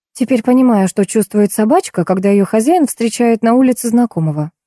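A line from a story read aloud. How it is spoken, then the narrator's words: Plain. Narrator (Russian): ответила я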